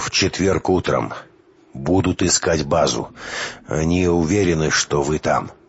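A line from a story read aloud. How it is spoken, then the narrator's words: Dejected voice. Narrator (Russian): упавшим голосом закончил Квалия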